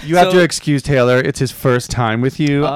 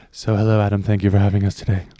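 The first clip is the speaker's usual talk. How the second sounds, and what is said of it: Sultry put-on podcast voice. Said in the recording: “This is my sexy podcast voice”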